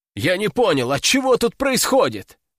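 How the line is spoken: Indignant shout. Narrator (Russian): возмущенно прокричал я

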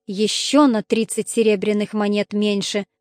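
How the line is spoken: Sighing. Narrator (Russian): вздохнул он

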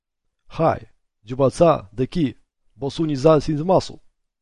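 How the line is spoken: Plain. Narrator (Russian): сказал Джо

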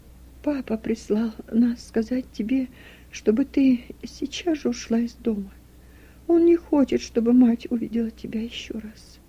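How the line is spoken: Speaking through tears. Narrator (Russian): Руфь проговорила сквозь слезы

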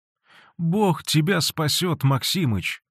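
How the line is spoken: Sobbing. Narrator (Russian): сказала она, всхлипывая

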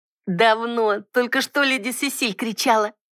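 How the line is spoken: Giggling. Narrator (Russian): хихикнула Тара

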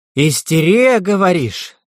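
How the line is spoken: Furious hiss. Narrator (Russian): яростно прошипел он

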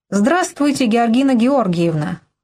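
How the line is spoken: Cheerful, brisk. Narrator (Russian): бодро начал

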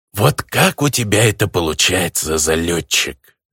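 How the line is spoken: Angry reptilian hiss. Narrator (Russian): Злобно прошипел гоблин, явно подражая какой-то рептилии

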